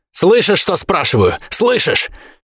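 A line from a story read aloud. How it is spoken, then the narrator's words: Joyful shout. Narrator (Russian): с искажённым от радости лицом прокричал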